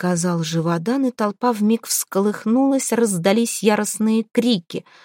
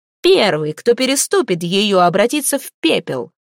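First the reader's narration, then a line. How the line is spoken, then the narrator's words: Low growling voice. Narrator (Russian): Ее голос был низким и рычащим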